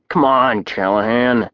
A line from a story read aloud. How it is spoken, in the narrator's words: I grumbled